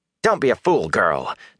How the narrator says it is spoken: Nynaeve snapped

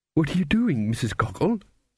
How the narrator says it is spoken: said anxiously

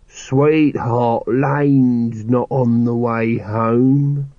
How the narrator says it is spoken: slurred Nobby

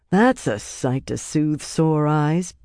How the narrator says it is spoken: Birgitta murmured

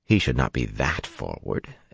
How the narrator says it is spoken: Anila said firmly

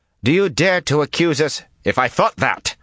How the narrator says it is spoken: Rand snapped

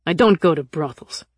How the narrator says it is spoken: he snapped

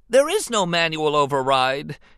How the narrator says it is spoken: Anakin shouted in despair

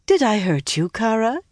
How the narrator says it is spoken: she said sweetly

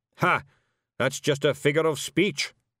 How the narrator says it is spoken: snapped Zack-Zack

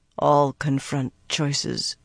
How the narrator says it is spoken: she said quietly

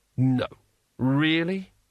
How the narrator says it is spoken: said Rincewind wearily

